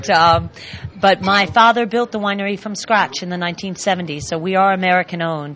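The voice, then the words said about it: American accent. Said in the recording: “owned by an American family... you could tell by my accent.”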